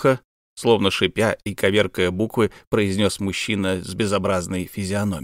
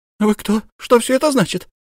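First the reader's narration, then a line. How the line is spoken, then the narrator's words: Frightened. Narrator (Russian): испуганно проговорила Софья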